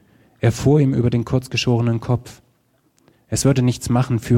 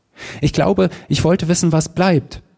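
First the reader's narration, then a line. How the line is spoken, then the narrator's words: Shouting while smiling. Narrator (German): schrie und lächelte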